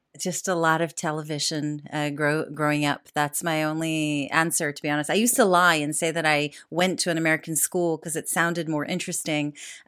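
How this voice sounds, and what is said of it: American accent. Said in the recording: “where does the American accent come from? ... So how come the American accent?”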